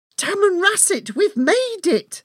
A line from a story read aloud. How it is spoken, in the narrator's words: I exclaimed out loud with relief and pride, bouncing up and down on my seat in excitement